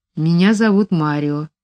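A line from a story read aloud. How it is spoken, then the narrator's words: Quiet young man. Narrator (Russian): тихо ответил молодой человек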